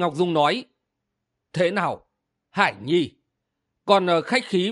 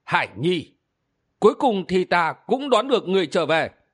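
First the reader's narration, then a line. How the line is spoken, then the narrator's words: Smug smiling speech. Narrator (Vietnamese): mỉm cười đắc ý nói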